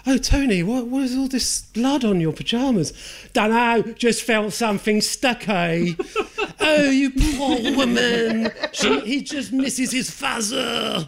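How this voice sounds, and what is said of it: Imitates film characters' voices. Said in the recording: “doing an impression of Extra”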